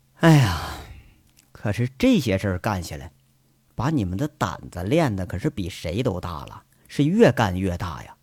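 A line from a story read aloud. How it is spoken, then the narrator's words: Deflated, sighing. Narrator (Chinese): 杨伟说完了这些自豪的事儿，马上如同泄气了似的，叹着气，摇着头，继续说着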